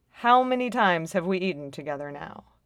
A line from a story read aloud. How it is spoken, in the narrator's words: says flatly